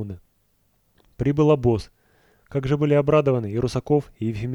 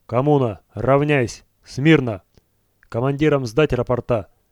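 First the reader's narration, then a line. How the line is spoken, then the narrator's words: Ringing commanding voice. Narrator (Russian): скомандовал Ваня звонким голосом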